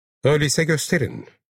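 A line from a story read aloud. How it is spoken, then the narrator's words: Plain. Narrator (Turkish): dedi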